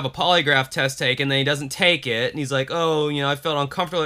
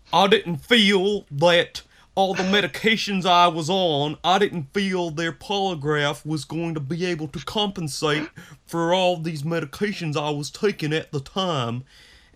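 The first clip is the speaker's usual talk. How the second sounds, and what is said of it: Mumbly voice like mouth full. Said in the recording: “You nailed that impression of that guy... that's how he talked. That's how he sounded. Sounded like he had a bite of moon pie in his mouth that he hadn't yet swallowed.”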